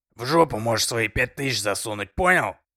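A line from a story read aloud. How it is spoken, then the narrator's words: Officer's loud bark. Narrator (Russian): гаркнул участковый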